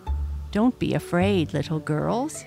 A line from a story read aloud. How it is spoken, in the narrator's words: he said, smiling kindly at them